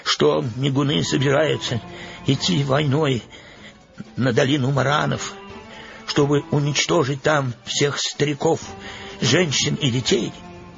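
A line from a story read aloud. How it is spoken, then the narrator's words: Trembling voice. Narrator (Russian): дрожащим голосом сказал Верес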